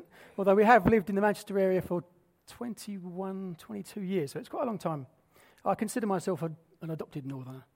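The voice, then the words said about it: Non-northern English accent. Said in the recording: “I'm not a northerner, you can undoubtedly tell that from my accent.”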